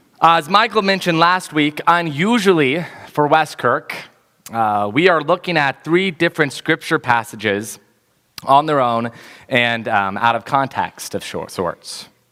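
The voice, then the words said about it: Slightly hoarse, fading voice. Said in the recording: “Losing my voice just a little bit this morning”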